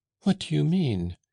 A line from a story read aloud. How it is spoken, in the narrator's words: cried poor Agathe